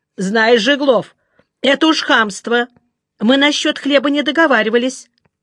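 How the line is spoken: Angry. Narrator (Russian): Соловьев сердито сказал

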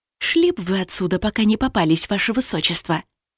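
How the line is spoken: Whispered advice. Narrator (Russian): посоветовала я шепотом

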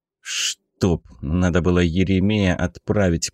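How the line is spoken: Grumbling. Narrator (Russian): проворчал Мишка

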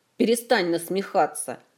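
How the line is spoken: Snapping retort. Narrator (Russian): огрызнулся Элмар

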